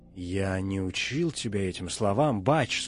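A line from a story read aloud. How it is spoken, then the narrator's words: Quiet. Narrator (Russian): сказал он тихо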